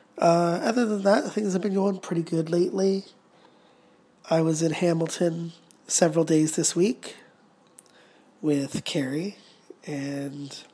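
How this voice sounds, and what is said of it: Stuffy, sick-sounding voice. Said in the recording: “I'm just getting over a cold, as you might hear in my voice.”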